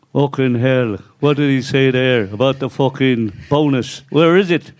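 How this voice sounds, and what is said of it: Imitates another person's voice. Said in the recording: “that's the best Pat Jennings impression.”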